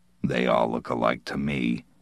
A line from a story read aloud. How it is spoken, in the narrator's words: Morrison muttered